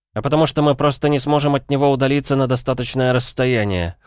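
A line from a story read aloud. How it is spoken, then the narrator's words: Dry snort. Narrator (Russian): хмыкнул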